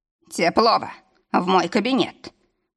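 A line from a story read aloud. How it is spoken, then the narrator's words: Booming voice. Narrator (Russian): прогремел голос босса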